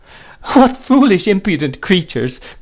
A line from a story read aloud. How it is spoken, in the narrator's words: cried, laughing and covering her face